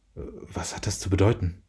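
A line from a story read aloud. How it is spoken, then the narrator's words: Muttering to himself. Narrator (German): murmelte vor sich hin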